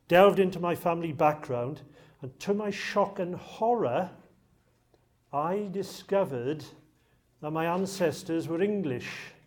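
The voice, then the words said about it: Slight Welsh accent. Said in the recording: “I've got a bit of a Welsh accent”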